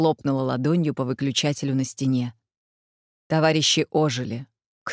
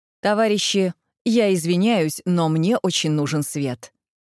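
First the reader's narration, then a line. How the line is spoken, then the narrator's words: Loud. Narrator (Russian): Валентина Петровна громко сказала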